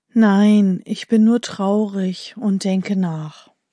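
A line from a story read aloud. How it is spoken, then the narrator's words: Man sighing. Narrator (German): der Mann, der seufzt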